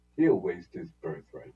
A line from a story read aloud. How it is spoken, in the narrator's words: she said